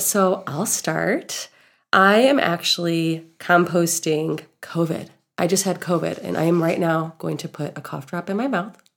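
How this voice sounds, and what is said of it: Nasal, congested voice. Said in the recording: “I sound a little different. I'm a little more nasally, and I have this cough.”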